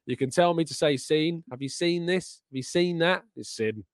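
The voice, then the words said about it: Regional accent, says sin for seen. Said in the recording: “people really get annoyed at me saying sin rather than seen... It's dialect... It's just my accent. It's where I can't help it.”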